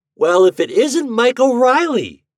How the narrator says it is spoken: he exclaimed

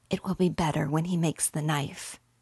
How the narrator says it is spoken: whispered David

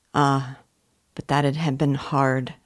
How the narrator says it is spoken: said Silas, in an undertone

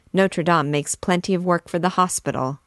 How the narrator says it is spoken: said he

